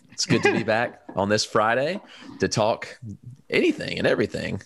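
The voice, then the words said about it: Smooth radio-style voice. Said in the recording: “you sound like a radio person... it sounds smooth. Like, I want you to read me to sleep... Smooth like jazz.”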